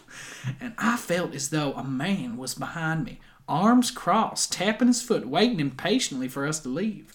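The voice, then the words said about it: Put-on southern accent. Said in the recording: “Good impression. ... impose a southern accent on that quote.”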